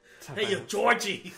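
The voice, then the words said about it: Put-on Boston accent. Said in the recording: “my Boston accent”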